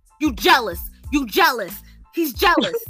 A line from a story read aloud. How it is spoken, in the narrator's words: Brandon starts shouting to Chris